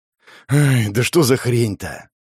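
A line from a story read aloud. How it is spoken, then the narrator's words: Sighing. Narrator (Russian): Он вздохнул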